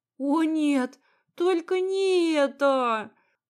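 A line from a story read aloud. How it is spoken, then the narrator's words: Moaned. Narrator (Russian): простонала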